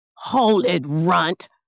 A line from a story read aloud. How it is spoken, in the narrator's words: snarled McNabb